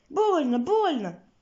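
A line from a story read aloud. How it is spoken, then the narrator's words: Mushrooms squeaking. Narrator (Russian): пищат грибы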